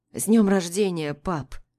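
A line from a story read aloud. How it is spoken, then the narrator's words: Hoarse greeting. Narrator (Russian): хрипло поздравляет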